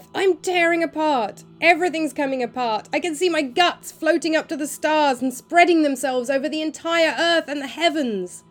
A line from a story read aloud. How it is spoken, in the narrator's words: suddenly, and quite clearly, yelling for all she was worth